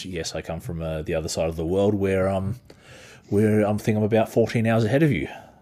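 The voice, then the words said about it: Speaker's own unusual accent. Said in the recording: “my weird accent”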